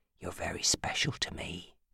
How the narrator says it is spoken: he murmured hoarsely

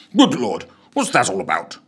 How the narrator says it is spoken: exclaimed Cuthbert, quite taken aback

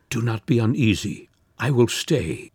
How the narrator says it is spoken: weeping he murmured

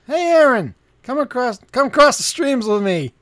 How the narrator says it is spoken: Joe leans back and yells

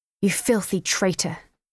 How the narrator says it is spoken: spat angrily as he struggled to pin me down

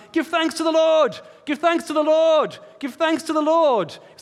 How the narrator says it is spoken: they would shout out 3 times

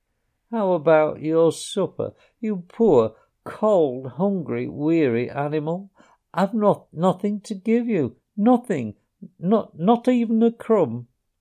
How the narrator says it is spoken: he moaned

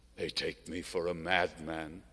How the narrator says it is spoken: would whisper, and tears like drops of wax flowed from his eyes

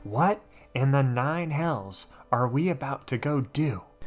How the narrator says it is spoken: she whispers

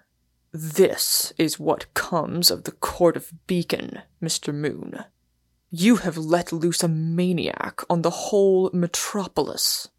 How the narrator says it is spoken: Warner said, with a sneer like a club of stone

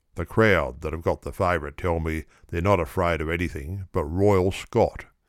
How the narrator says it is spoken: he says

